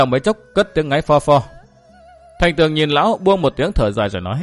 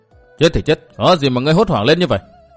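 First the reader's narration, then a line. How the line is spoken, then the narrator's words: Irritable snap. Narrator (Vietnamese): Thành tường cáo gắt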